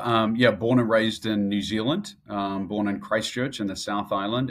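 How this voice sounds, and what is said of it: New Zealand accent. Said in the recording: “I know people probably noticed the accent right away and they're like, okay, where's this guy from?”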